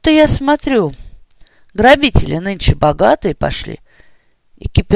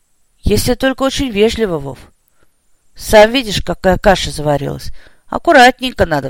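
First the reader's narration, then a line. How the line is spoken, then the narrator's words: Sighing civilian. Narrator (Russian): вздохнул штатский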